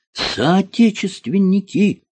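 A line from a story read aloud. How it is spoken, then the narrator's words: Yelling. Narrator (Russian): завопил он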